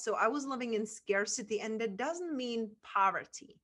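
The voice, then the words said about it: Czech accent in English. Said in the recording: “where my accent is from a small town in Czech Republic”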